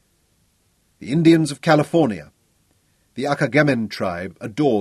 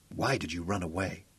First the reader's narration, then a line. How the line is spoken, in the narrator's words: he whispered